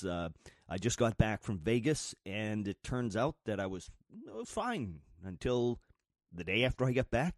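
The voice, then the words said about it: Sick voice with a cold. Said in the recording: “excuse my voice... I've got a cold. I am just a mess... coughing”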